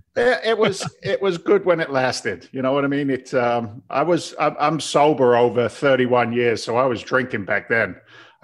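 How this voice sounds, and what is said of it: Mixed English and American accent. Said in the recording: “I can hear the twang in your accent. I can hear the bit of the English and a bit of the US.”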